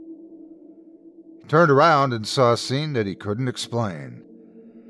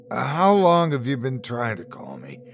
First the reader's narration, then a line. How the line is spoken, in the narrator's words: he said, his voice crackling